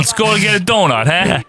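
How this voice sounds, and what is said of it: Put-on Brooklyn accent. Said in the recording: “A Brooklyn accent.”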